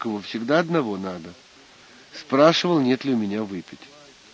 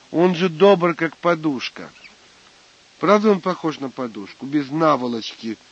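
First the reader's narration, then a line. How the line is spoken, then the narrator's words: Angry speech. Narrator (Russian): сердито сказал монахов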